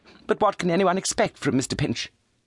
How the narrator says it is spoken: cried Charity

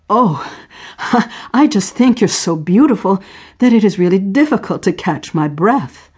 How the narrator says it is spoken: Sarah laughed

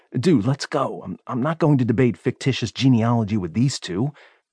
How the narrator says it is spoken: I grumbled

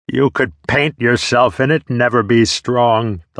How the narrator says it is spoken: the loud one laughed

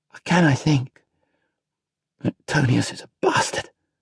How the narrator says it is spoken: Marcus muttered

